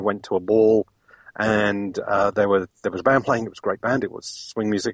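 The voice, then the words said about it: British London accent. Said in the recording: “Back in London? Because I'm guessing your accent gives you away. ... out of the UK”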